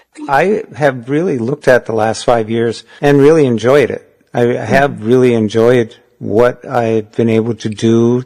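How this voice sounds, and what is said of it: Thick Minnesotan accent. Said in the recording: “thick Minnesotan accent”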